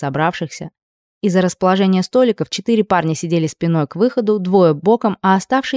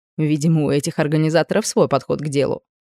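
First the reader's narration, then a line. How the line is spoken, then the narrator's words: Snorting. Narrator (Russian): хмыкнула Айда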